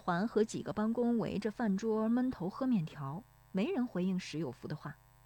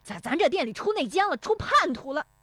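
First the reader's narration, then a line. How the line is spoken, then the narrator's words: Frantic angry yelling. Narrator (Chinese): 石有福气急败坏地嚷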